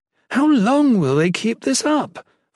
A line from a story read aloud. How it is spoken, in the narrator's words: Volney whined